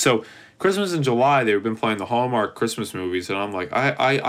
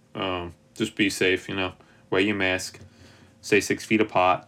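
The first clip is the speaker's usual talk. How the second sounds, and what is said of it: Put-on New York accent. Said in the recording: “I don't know why I went into a New York accent”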